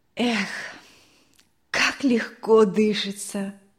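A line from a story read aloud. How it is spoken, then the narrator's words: Deep sigh. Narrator (Russian): Мария Николаевна глубоко вздохнула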